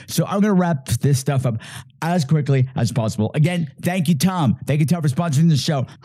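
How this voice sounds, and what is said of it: Strained, failing sick voice. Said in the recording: “I don't know if you can hear it, but I'm coming down with something. My voice is hanging on by a thread.”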